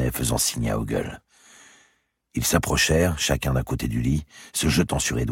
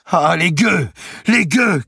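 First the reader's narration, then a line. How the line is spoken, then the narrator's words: Shouted. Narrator (French): cria-t-il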